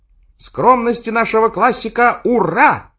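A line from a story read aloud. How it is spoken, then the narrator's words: Shouting. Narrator (Russian): опять прокричал Охламонов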